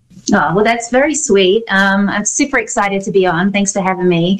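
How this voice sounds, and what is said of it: London English accent. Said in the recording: “I'm from London. That's where the accent is from.”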